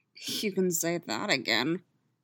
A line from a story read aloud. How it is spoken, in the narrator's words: Sabine muttered to herself